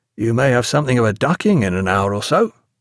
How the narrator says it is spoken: in a conversational tone

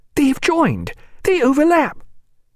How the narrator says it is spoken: he looked again and cried

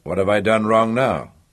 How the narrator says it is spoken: he asked in a dry tone, but good-humouredly enough

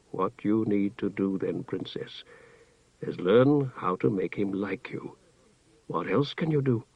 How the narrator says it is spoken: Sesarek shrugged mournfully

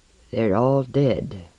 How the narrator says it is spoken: Martin said heavily, gently

